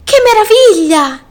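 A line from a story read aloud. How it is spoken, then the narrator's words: Exclaiming. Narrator (Italian): esclamò Alberto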